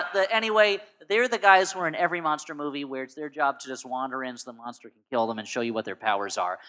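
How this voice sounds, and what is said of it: Usual voice. Nothing is said of it.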